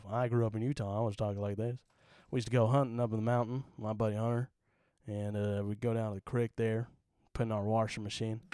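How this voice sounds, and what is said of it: Put-on Southern drawl. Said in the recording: “Utah accent ... I always kind of had a Southern drawl”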